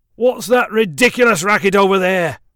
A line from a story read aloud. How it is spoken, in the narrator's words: Speckle yelled, his temper flaring